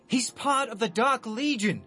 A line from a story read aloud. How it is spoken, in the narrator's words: yell